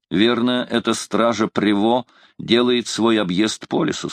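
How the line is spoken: Plain. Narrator (Russian): сказал он

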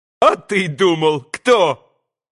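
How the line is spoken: Ringing happy yell. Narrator (Russian): Звонким, счастливым голосом изо всей силы завопил Красоткин

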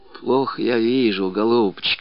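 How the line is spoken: Old woman whispering. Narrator (Russian): шептала бабушка Лукерья

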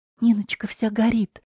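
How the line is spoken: Anxious whisper. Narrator (Russian): взволнованно прошептала

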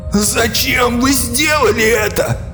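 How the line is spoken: Shout. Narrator (Russian): закричал Фишек

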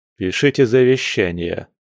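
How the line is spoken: Wry snort. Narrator (Russian): хмыкнул Альфа

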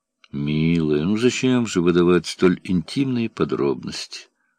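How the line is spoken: Sad. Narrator (Russian): грустно сказал Бестужев

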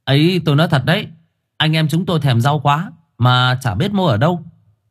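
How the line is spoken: Laughing loudly. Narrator (Vietnamese): Thằng Khải cười to

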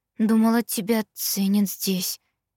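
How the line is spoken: Quiet. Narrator (Russian): тихо сказала я

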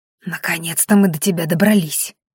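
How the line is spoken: Breathless young man. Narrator (Russian): выдохнул парень

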